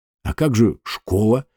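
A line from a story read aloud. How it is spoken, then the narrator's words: Forced out, strained. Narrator (Russian): выдавил он из себя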